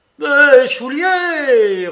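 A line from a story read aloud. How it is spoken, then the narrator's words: Roared. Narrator (French): rugit le père Soupe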